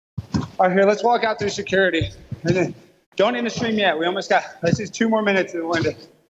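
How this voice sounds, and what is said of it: Out of breath, panting. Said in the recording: “I'm out of breath.”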